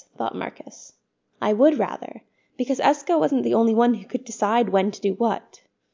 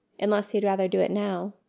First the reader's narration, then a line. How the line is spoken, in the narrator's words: Eska said softly